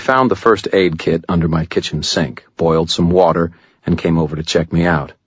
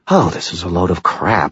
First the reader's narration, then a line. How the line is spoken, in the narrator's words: he muttered